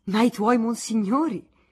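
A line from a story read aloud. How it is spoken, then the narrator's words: Smiling exclamation. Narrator (Italian): esclamò sorridendo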